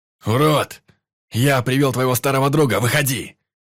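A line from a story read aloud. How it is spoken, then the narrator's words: Shouting. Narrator (Russian): Это закричал Клещ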